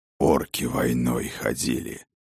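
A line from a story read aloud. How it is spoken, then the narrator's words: Angry hiss. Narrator (Russian): гневно прошипел Сфайрат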